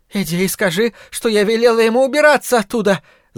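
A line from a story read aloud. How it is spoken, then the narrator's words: Shout. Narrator (Russian): закричала она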